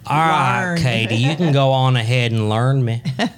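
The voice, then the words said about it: Put-on Texan accent. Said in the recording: “That was a Texan speak. ... You really should say it in an accent.”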